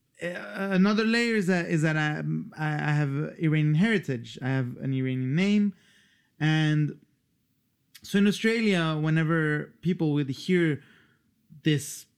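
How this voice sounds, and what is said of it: Hard-to-place mixed international accent. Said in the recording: “accent, which people can't quite pin down, is it American, is this a Luxembourg accent, ... it certainly isn't Australian”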